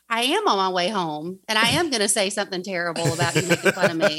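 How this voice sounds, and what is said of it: Southern American accent. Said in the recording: “I'm try excited not to be too. way too southern for everyone... You're you're you're just southern enough. I love your southern... Matt was making fun of my accent”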